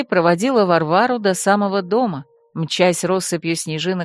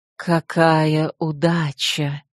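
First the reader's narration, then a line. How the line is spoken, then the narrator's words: Goddess whispering like wind. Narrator (Russian): свистом ветра отозвался шепот богини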